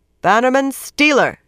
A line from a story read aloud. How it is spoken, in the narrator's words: said loudly